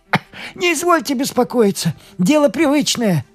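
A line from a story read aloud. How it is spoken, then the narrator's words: Shaky voice, loud sob. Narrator (Russian): ответил с дрожью в голосе Сеня и громко всхлипнул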